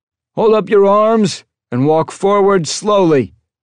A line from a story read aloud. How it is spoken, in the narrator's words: a voice shouted down the hall